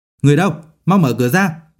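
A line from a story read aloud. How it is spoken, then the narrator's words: Loud shout. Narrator (Vietnamese): hét lớn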